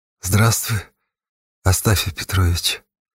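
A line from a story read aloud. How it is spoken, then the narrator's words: Quiet. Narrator (Russian): тихо сказала Нежданно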